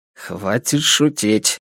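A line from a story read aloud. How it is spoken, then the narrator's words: Grumbled over a network. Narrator (Russian): буркнул он мне по сети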